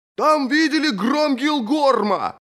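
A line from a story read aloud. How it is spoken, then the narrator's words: Shouting. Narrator (Russian): крикнул кто-то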